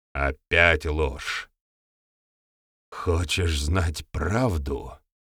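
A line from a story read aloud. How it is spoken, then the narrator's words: Words through gritted teeth. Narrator (Russian): Процедил гостята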